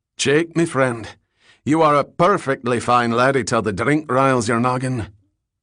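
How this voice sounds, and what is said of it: Thick Scottish accent. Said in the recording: “He had a thick Scots accent.”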